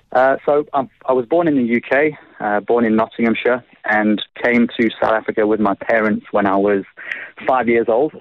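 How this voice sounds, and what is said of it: Slight English Midlands accent. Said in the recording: “I've still got a bit of a twinge of an English accent in there. Being from the Midlands, the accent's quite broad, so it's kind of stuck.”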